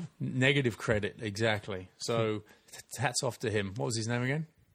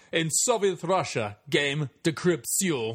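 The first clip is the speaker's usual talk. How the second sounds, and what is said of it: Put-on Russian accent. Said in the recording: “Thanks to Zoya Destroyer for the inspiration behind that accent.”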